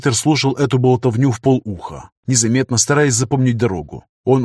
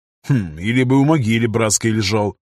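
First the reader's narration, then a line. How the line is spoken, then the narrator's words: Skeptical grunt. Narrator (Russian): хмыкнул пограничник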